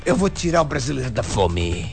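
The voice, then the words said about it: Imitates another person's voice. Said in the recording (Portuguese): “Boa a tua imitação, cara.”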